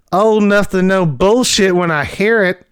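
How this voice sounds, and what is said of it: Spot-on impersonation of a character. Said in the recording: “Once again, spot on impersonation.”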